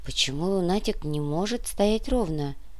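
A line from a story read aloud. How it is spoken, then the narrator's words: Whispered question. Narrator (Russian): шепотом спросила Олеся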